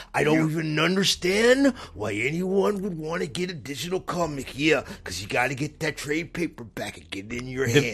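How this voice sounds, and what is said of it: Gravelly wrestler impression, low then rising. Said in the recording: “The most authentic part of that impression ... That is totally something Macho Man would ... That is a really good impression ... you kind of go a little bit low, then you go up”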